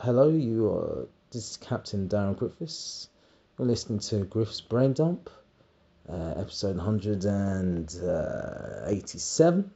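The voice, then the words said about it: Airline pilot announcement voice. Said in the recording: “talk like a pilot.”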